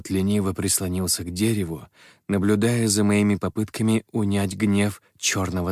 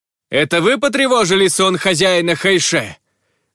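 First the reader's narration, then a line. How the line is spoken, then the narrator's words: Shouted. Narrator (Russian): крикнул я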